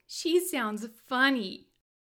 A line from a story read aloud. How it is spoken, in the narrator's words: Danny laughed